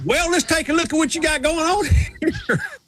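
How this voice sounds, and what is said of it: Put-on Southern accent. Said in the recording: “he understands about the Southern accent ... the smartest people I know have a Southern accent”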